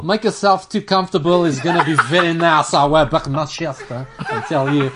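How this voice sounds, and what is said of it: Imitates another person's voice and accent. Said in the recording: “I'm allowed doing that accent ... If I had to close my eyes, I'd think that was Ronaldo.”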